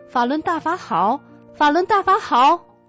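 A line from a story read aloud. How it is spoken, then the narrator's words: Shouting until hoarse. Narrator (Chinese): 喊到他都快喊不出声了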